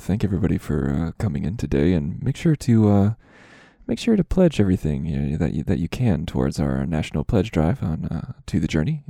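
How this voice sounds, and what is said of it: Close-mic NPR radio host voice. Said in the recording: “Why are you kissing your microphone? ... my best NPR impression ... it was perfect NPR”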